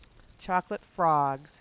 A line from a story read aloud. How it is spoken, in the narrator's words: she said, in a dispirited voice, and without the least bit of enthusiasm